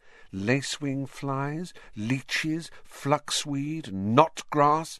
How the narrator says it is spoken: she murmured

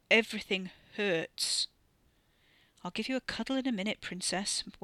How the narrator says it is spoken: Wes muttered

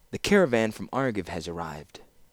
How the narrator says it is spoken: Laura said softly

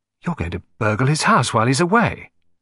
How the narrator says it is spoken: I gasped

